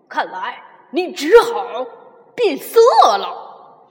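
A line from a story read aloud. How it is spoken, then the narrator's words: Loud. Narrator (Chinese): 灰狼呢 又大声说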